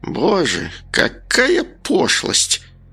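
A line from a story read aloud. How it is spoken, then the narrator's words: Wanderer moaning. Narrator (Russian): простонала странница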